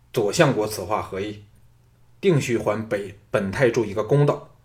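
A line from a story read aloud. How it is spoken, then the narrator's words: Stern sharp voice. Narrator (Chinese): 李全 厉声说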